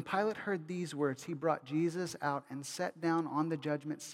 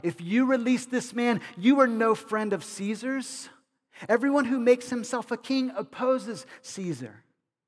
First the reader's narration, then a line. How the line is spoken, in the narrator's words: the Jews cried out